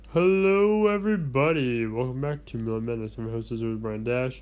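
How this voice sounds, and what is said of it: Congested, stuffy-nosed voice. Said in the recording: “My voice is practically, garbage at this point because my nose is all stopped up. So if I sound really off, I can't really hold a tune right now”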